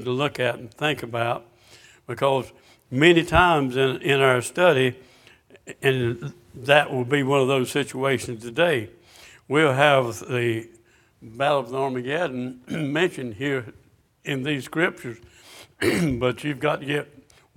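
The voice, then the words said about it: Slightly hoarse voice. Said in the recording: “I'm a little bit hoarse,”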